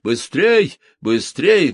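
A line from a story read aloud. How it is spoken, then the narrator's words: Loud distant shouting. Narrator (Russian): громко кричал он с противоположной стороны дороги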